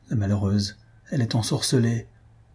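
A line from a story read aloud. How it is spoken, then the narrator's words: Low voice. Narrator (French): dit Albina à voix basse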